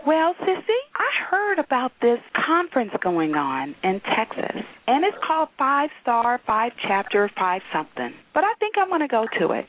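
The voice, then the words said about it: Impression of a friend's voice. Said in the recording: “my best Linda impersonation”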